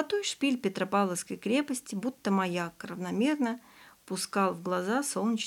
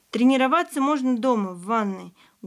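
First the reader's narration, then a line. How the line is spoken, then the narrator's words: Loud. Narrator (Russian): громко говорил Ваня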